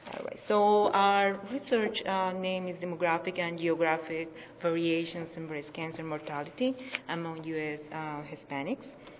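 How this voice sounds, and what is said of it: Speaks English with an accent. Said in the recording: “Please excuse my accent, my fake accent.”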